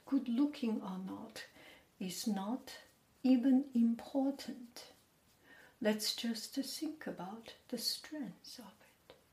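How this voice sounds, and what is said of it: Slow speech with a non-native accent. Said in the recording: “I speak slow, and I speak with accent.”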